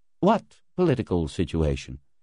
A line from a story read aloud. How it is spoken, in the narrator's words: Floyd asked dryly